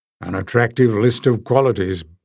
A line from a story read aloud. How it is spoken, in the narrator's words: said Barda dryly